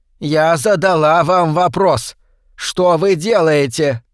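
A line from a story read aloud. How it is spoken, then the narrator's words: Rising voice into shout. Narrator (Russian): Миссис Рот все повышала голос и под конец фразы уже кричала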